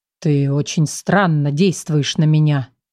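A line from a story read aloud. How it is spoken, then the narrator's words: Low vibrating voice. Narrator (Russian): проговорил он низким вибрирующим голосом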